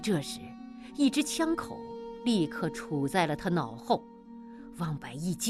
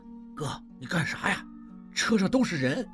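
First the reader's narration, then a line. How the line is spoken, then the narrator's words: Fearful low voice. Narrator (Chinese): 望石……低声害怕地说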